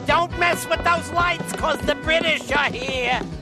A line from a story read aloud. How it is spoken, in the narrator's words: he yelled loud and clear